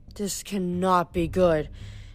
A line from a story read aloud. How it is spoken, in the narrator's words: Jason muttered